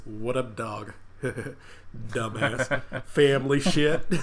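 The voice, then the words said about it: Put-on southern accent. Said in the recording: “I'm giving him a southern accent that he probably doesn't need”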